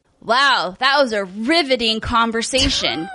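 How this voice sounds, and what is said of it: Sarcastic tone. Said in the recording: “Why do I feel like you're being sarcastic?”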